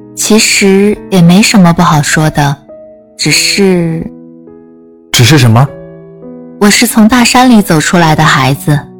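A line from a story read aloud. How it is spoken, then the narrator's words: Low voice. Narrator (Chinese): 王倩低声道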